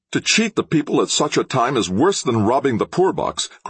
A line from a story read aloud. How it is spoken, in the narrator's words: cried Trent angrily